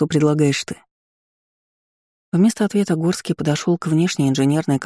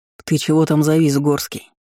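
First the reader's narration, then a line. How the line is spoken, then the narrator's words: Stern question. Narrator (Russian): он спросил строго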